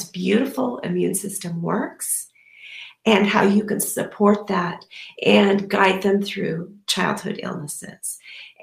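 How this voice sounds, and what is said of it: Strained, failing voice. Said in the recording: “so I can save my voice ... my voice is failing me”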